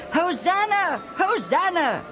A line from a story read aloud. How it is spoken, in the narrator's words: the crowd kept shouting